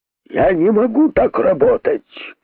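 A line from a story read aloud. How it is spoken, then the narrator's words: Shouting. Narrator (Russian): крикнул он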